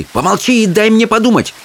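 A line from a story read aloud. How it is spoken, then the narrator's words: Barked. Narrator (Russian): рявкнула Чармейн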